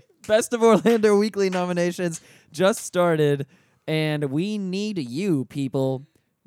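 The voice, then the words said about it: Imitates Uncle Sam patriotic voice. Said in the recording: “This is my Uncle Sam. Just the best Uncle Sam impression I have. ... I'm doing my best America Uncle Sam impression”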